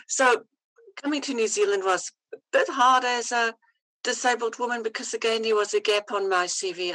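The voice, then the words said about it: Mixed Afrikaans and New Zealand accent. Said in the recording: “my accent is really a mixture of Afrikaans and Kiwi and New Zealand and whatever”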